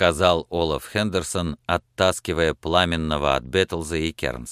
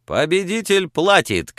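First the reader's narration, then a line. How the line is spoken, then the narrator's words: Shout. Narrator (Russian): крикнул пламенный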